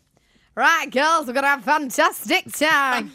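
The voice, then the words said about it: Put-on accent, Braveheart-style pep speech. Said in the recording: “She'll do a little epic Braveheart speech before we go on ... We do a little accent.”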